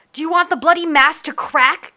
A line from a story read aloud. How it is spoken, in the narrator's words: Captain Yuki shouted over the din